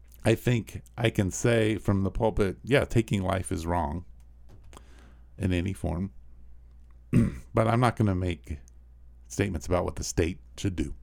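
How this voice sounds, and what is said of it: Strained, failing voice. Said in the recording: “My voice is really going”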